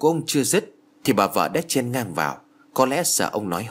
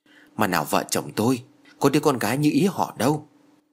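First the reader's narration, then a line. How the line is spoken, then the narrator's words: Sighing. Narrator (Vietnamese): Ông giáo Thái thở dài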